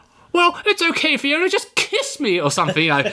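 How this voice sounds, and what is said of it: Imitates another person's voice. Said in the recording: “I need to work on my John Lithgow impression.”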